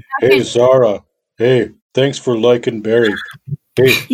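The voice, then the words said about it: Cartoon bear character voice. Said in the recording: “You must be doing the voice of Bear.”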